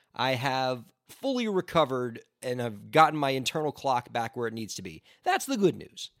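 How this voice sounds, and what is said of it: Hoarse, strained voice. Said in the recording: “you can probably hear it in my voice, I'm now fighting a touch of the laryngitis ... my voice is always a little shot”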